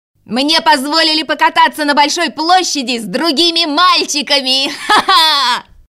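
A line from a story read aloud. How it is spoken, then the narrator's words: Shout right in ear. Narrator (Russian): крикнул Герде в самое ухо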